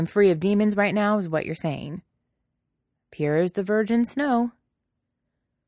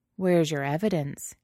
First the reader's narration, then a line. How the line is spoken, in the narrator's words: He asks, his voice low and a little rough